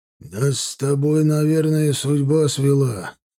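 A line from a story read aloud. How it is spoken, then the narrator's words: Hoarse, spiteful voice. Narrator (Russian): проговорил он хриплым, злобным голосом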